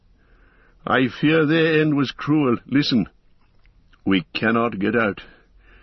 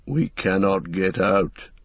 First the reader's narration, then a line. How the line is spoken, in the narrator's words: muttered Gimli